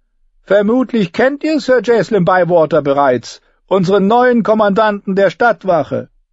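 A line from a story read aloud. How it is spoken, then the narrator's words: Called out. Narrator (German): rief Tyrion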